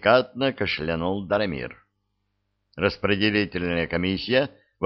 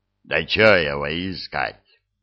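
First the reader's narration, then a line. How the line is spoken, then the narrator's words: Good-natured low rumble. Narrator (Russian): добродушно прогудел Диффенбахи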